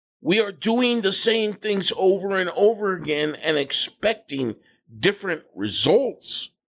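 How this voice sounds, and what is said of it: Yelling, excited angry voice. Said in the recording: “I'm yelling. ... I am getting excited. ... I am getting angry.”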